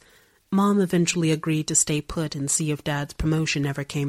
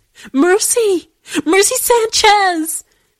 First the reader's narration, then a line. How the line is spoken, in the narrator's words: She hopelessly, sobbing